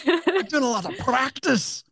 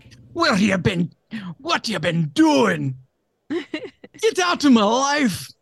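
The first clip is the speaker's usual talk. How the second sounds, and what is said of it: Put-on Scottish accent, side of mouth. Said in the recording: “Conan O'Brien doing Groundskeeper Willie ... I feel like you're really good at that ... my Scottish accent ... blutering and drunk ... put your mouth to the side ... under the side of the mouth”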